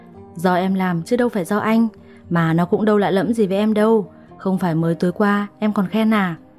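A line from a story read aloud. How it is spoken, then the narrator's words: Laughing loudly. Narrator (Vietnamese): Anh lại cười lớn hơn mà nói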